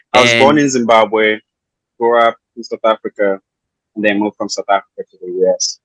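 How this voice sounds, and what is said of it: South African accent. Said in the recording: “I noticed your accent is isn't from the Midwest ... you're from South Africa”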